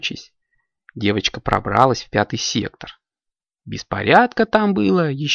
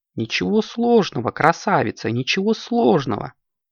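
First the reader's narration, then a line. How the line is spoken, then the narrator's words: Cooing mirror. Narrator (Russian): проворковало зеркало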